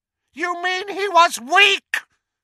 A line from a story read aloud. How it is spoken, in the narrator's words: screamed Voldemort